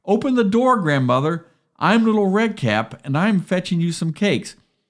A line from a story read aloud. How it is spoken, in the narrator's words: the wolf cried